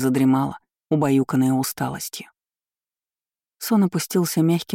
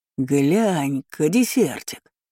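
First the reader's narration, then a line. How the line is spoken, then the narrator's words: Man exclaiming. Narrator (Russian): воскликнул мужик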